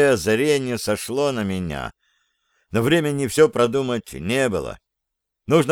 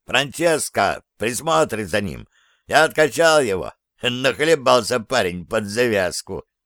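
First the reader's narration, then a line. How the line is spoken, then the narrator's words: Triumphant laughter. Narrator (Russian): Он засмеялся, и радостное торжество его хохота не смог заглушить злобный рев шторма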